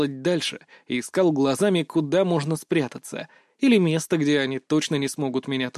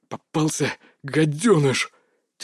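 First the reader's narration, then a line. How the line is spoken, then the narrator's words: Breathless gasp. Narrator (Russian): Тяжело дыша, выдохнул босс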